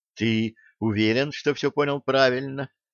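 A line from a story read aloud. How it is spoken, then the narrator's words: Whispered. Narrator (Russian): прошептала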